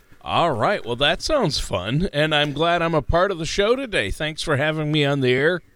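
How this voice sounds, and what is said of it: Polished radio announcer voice. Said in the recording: “such a great radio voice you have”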